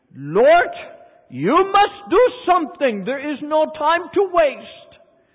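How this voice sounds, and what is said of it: Dutch-accented impression of Corrie ten Boom. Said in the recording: “this is the way Corrie ten Boom used to pray. Lord, that's Dutch accent for Lord.”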